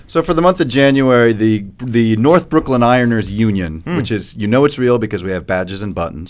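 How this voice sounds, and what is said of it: Polished, eloquent radio voice. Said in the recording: “You're obviously very eloquent. You got a great radio voice.”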